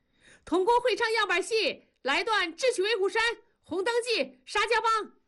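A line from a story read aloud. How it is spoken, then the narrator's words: Shout from the crowd. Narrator (Chinese): 底下就喊了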